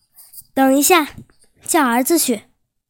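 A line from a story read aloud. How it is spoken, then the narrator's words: Eager shout. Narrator (Chinese): 耶律阿保机眼睛一亮，喊道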